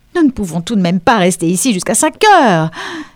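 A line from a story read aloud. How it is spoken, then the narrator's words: Exclaimed. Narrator (French): s'écria Mrs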